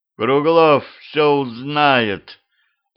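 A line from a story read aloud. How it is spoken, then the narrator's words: Groan of uncontrollable desire. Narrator (Russian): Простонал я, чувствуя, как во мне растет желание, которое я не могу контролировать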